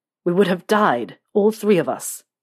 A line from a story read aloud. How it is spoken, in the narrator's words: James said, his voice turning into a growl as he continued on